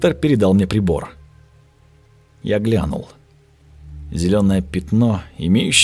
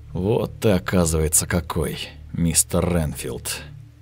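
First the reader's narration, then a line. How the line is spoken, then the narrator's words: Muttering. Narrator (Russian): пробормотал я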